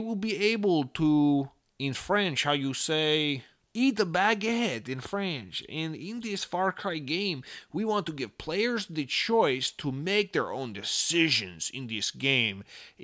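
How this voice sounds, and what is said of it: Bad put-on French accent. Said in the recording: “that's a really bad French accent.”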